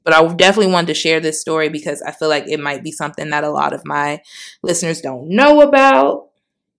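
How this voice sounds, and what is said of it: Choked up, emotional voice. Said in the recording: “getting a little choked up here”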